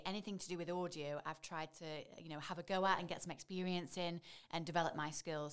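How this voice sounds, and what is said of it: Stoke English regional accent. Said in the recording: “especially with my accent ... I'm from Stoke. I grew up in Leek. And I think, you know, my accent was quite strong.”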